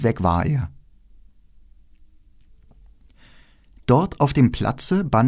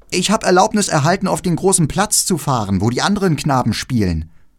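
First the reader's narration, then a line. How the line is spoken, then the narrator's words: Calling into ears. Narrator (German): Er rief Gerda in die Ohren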